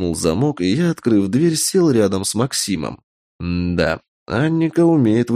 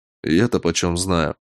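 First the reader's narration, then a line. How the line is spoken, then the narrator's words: Grumbled. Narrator (Russian): буркнул я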